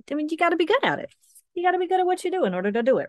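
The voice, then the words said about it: Speaks in a put-on accent. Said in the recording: “Where did that come from? Where did that accent? ... That accent? Oh, I am full of accents.”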